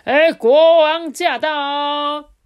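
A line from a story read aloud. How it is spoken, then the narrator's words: Sudden loud shout. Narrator (Chinese): 门外的那个侍卫啊，就突然大喊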